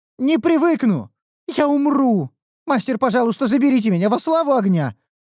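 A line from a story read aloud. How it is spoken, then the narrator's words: Pleading. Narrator (Russian): взмолилась Ниуру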